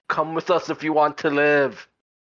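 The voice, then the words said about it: Put-on Austrian accent. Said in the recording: “You gotta say it in an Austrian accent.”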